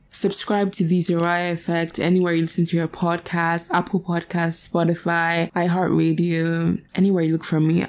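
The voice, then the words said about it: Very raspy, croaky voice. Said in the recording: “My voice is like very raspy, but like not this sexy raspy. ... It's giving dying frog.”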